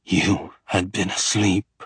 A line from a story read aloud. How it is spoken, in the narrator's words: he says through clenched teeth